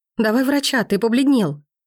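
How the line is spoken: Frightened breathless exhale. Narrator (Russian): Испуганно выдыхаю я

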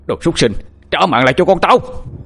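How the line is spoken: Furious loud shout. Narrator (Vietnamese): chú Hai Tầm hô lớn, giọng ông mang theo đầy sự tức giận

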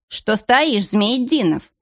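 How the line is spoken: Sharp shout. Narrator (Russian): прикрикнул на него начальник

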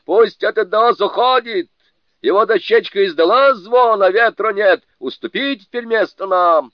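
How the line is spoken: Yelling, losing patience. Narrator (Russian): Джубадзе не выдержал и заорал

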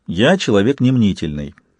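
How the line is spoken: Soft. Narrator (Russian): сказал Сварог мягко

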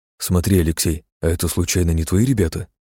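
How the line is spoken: Whispered. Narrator (Russian): прошептал Синицын

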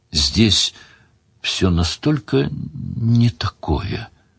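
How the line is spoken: Said quietly. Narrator (Russian): тихо сказала Делия

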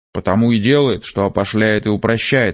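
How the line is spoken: Fat man's gloomy snap. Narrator (Russian): мрачно огрызнулся толстый

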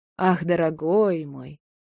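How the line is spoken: Feigned sad tone. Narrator (Russian): говорю, сам себе удивляясь, лицемерно грустным тоном

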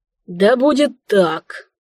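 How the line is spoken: King nearly moaning. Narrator (Russian): едва ли не простонал король

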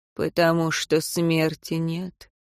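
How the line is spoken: Calm. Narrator (Russian): спокойно ответил ему господин Исари

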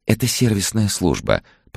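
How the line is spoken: Soft cooing female voice. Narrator (Russian): проворковал нежный женский голос

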